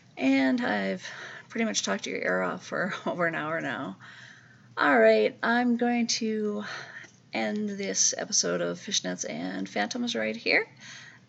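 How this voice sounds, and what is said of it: Scratchy voice. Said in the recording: “as you can probably tell, my voice is a little bit scratchy today”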